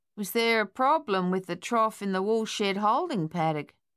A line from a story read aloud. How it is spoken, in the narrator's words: he asked in his usual drawl